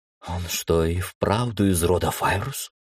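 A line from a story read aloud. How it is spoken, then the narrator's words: Whisper from behind. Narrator (Russian): шепотом раздалось за моей спиной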